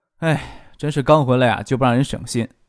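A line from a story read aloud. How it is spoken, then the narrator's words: Muffled soft sigh. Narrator (Chinese): 张可拿住打印纸盖住脸，轻叹了一声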